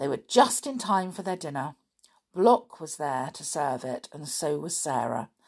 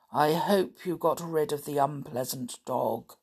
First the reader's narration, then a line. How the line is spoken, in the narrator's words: said Block in his monotonous voice